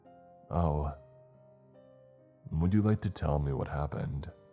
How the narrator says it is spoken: I sighed deeply

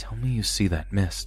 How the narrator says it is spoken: whisper

